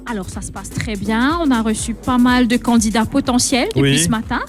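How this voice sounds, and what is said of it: Martinican French accent, pleasant voice. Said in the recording (French): “celle qui a l'accent martiniquais et pourtant elle est mauricienne ... vous avez une très belle voix à l'antenne”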